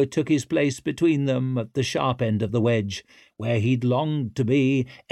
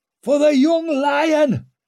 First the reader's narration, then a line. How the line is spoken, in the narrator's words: bellowed Jin